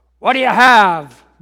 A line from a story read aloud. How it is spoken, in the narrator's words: barked the bartender